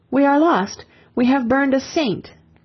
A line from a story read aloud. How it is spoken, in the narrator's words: As the flames mounted about her, an Englishman cried out